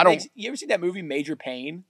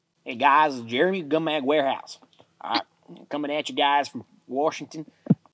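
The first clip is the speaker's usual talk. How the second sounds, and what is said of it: Imitation with thick country accent. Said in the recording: “I've never actually heard somebody do an imitation of me. ... Evidently, my country accent's a lot thicker than I thought it was.”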